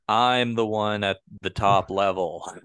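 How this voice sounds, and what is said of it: Flat monotone impression of Wendi Richter. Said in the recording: “talking at a monotone”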